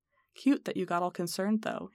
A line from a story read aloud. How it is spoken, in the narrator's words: he adds kindly